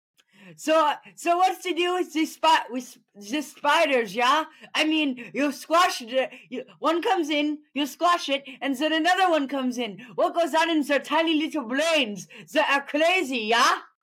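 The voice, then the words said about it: Put-on German accent, comedic voice. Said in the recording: “my impression of a German stand-up comedian”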